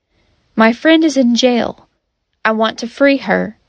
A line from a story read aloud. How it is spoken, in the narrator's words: Paul replied